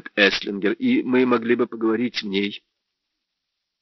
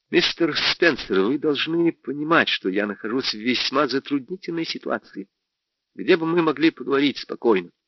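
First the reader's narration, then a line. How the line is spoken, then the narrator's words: Quiet. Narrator (Russian): сказал тихо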